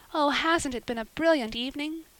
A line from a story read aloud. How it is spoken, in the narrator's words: sighed Anne